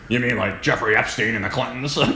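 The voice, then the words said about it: Good impression of Alex Jones. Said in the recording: “That's a good good impression.”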